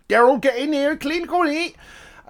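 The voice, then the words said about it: Poor put-on Scottish accent. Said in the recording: “That was a terrible Scottish accent. It sounded Irish.”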